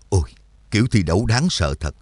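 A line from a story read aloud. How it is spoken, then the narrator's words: Muttered. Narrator (Vietnamese): Trắc Mộc Cường Ba lẩm bẩm nói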